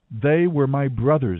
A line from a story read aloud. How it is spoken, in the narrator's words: Gideon exclaimed